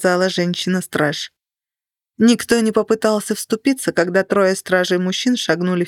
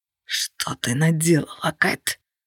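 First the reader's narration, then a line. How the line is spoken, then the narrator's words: Rasped. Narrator (Russian): прохрипел Влад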